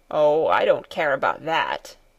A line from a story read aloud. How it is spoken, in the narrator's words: he grumbled in reply